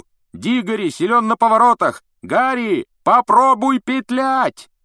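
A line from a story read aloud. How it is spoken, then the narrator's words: Shouting after someone. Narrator (Russian): Вуд все еще кричал ему вдогонку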